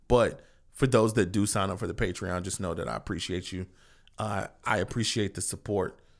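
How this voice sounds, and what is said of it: Fading, tired voice. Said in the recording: “My voice is going away. ... I'm tired.”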